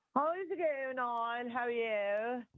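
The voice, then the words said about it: Put-on posh accent. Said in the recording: “Why are you putting on a posh accent ... That was a little bit posh for you”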